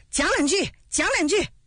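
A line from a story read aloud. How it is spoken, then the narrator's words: Crowd shouting together. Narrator (Chinese): 众人跟着起哄，一起喊道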